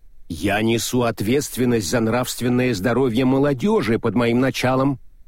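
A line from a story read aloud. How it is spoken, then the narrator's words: Stern woman. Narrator (Russian): строго сказала госпожа Макалариат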